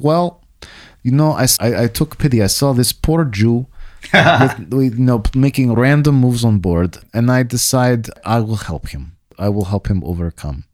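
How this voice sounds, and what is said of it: Put-on Russian accent. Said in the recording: “that's my Russian accent story ... you were able to put on the H”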